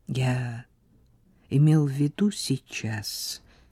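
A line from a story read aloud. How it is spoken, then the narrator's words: Calm. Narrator (Russian): спокойно ответил он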